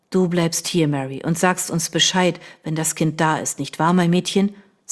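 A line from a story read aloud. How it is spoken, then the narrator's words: Plain. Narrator (German): sagte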